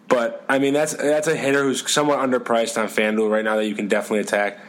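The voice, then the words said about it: Boston accent. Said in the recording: “pardon my Boston accent”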